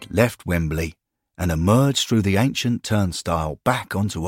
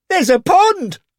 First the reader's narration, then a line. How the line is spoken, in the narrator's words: the man shouted